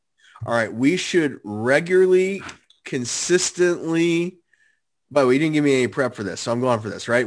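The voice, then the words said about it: Raspy voice from a cold. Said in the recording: “You sound a little bit raspy. You sound a little raspy. You got that cold thing going.”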